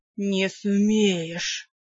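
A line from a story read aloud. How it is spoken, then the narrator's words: Hiss. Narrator (Russian): прошипел маг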